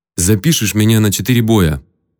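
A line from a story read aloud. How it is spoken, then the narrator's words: Commanding tone. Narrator (Russian): приказным тоном сказал Майк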